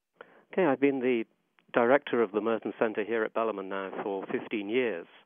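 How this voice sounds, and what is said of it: English accent. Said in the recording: “as you can probably spot by the accent, I'm not from this part of the world ... So I moved here from England”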